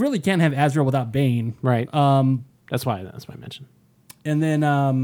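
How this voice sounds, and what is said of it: Usual voice. Nothing is said of it.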